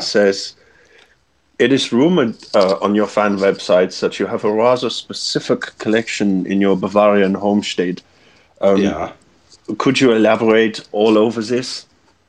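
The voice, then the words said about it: Put-on German accent. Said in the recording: “Your German accent was so impeccable”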